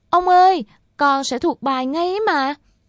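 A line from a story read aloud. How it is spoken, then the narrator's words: Loud shriek. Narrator (Vietnamese): nó, miệng hét váng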